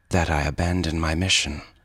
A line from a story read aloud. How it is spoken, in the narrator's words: she said coldly